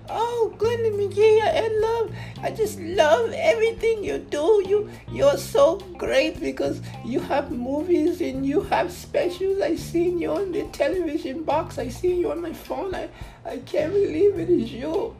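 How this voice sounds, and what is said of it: Weird put-on European accent. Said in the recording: “I don't know why I just did that weird ass like European accent”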